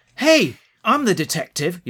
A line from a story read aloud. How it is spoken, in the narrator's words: yelled Susan at the end of her tether